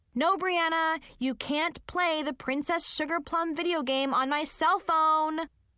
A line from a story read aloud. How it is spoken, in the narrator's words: I yelled